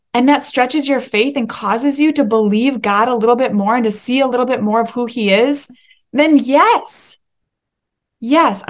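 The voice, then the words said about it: Excited yelling. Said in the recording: “sorry I'm yelling. ... I'm just getting excited.”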